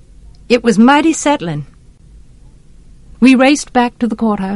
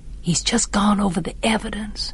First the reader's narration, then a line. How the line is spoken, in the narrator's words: Jem whispered